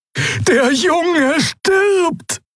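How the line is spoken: Shouting at someone. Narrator (German): schrie Xea die Schattenfrau an

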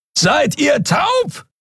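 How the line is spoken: Roaring across great distance. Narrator (German): brüllte Kero von der anderen Seite des Portals über die Kluft zwischen zwei Planeten hinweg

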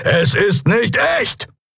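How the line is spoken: Exclaiming. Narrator (German): rief er

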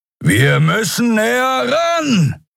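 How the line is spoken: Shouting over howling wind. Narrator (German): rief Keru über den heulenden Fahrtwind

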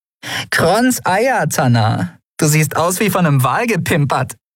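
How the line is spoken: Dirty laugh. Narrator (German): lachte ihr unwiderstehliches, dreckiges Lachen

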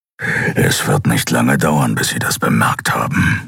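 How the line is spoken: Growl. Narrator (German): knurrte Kero

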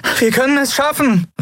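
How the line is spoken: Shouting over constant beeping. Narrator (German): rief sie über das ewige Piepsen des Kubus hinweg

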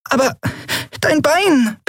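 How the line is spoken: High squeak. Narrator (German): piepste Nelen

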